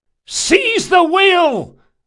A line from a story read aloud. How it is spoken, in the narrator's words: Locke cried